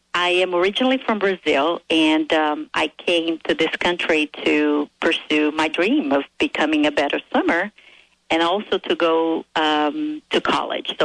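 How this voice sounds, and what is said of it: Brazilian accent. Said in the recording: “So I can hear the accent.”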